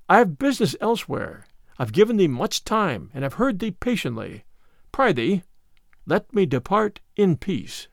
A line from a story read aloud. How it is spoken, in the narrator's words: said the other gently